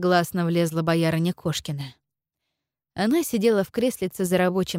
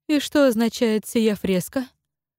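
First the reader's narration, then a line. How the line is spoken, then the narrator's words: Unusually gentle question. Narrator (Russian): непривычно ласково спросил отец Варфоломей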